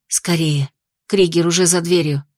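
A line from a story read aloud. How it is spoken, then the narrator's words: Quiet. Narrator (Russian): сообщила северянка негромко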